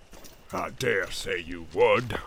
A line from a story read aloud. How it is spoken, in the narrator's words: snarled Ugluk